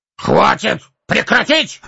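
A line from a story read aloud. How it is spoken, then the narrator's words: Shouted. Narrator (Russian): закричал Торин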